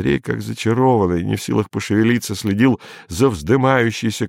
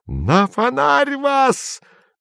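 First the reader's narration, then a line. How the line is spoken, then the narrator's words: Wild, furious shrieking. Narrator (Russian): Налившись кровью, дико вопил младший адъютор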